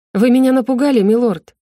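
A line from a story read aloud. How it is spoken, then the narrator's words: Sharp, indignant. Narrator (Russian): резко высказалась она, даже не собираясь сдерживать негодование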